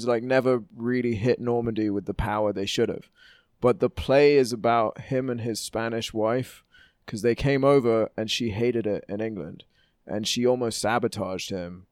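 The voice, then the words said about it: London English accent. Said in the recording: “Everyone can tell because I said it and also your accent. ... That you are in New York City by way of London.”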